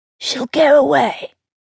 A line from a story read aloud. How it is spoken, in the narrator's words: whispered